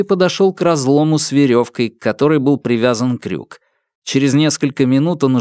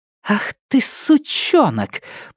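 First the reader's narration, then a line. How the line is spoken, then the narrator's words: Hiss. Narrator (Russian): прошипела Нелит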